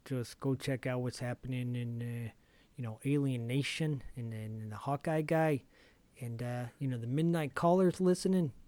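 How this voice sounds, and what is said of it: Poor put-on Chicago accent. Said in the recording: “This is a terrible Chicago accent.”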